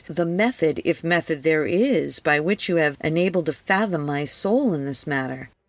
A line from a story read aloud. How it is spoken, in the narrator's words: exclaimed